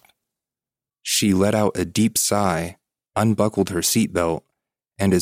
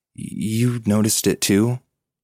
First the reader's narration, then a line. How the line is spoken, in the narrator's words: my sister said in a shaky voice